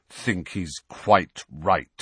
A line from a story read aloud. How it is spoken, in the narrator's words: said Sirius through clenched teeth